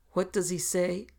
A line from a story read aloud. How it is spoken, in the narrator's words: the king cried in the same transparently natural words